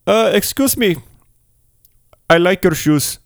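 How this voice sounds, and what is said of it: Put-on Indian accent. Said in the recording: “it's a young Indian fella, if you couldn't tell by my amazing impression.”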